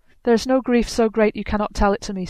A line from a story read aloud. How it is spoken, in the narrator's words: said Skirnir